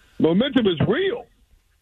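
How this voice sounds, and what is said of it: Impression of Derek Carr. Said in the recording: “You do a mean Derek Carr impression.”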